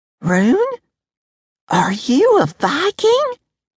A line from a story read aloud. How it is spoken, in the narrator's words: Her voice had gone all squeaky